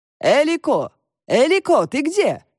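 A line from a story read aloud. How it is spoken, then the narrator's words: Calling out. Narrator (Russian): крикнула Нуца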